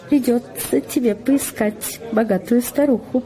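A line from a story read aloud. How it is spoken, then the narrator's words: Cheerful. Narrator (Russian): весело сказала Джулия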